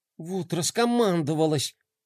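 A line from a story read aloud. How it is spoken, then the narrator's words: Grumbling. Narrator (Russian): проворчал Рома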